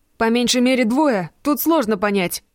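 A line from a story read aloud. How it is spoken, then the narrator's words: Shout. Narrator (Russian): крикнул ей Марк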